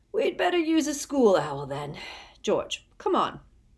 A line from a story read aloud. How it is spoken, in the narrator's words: yawning, and said